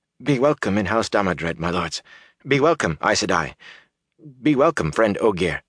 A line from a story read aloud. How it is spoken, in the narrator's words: In a strangled voice he said